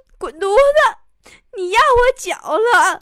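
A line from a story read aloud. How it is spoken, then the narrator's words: Crying woman speaking. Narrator (Chinese): 那美女呀，一边哭一边说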